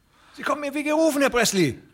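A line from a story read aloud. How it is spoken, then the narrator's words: Call. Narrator (German): rief der andere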